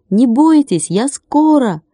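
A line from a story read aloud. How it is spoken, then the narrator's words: Shouted. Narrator (Russian): крикнул Владик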